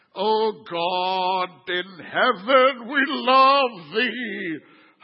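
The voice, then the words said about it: Exaggerated churchy preaching voice. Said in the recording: “you change your whole voice. That's religiosity”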